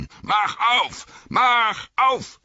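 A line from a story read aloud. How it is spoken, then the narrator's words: Bellowing. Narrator (German): brüllte er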